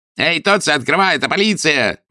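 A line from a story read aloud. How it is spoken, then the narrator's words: Yelling. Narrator (Russian): вопил двойник Девито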